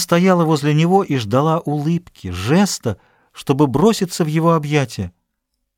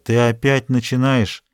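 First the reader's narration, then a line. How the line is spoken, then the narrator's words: Grumbling. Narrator (Russian): Он проворчал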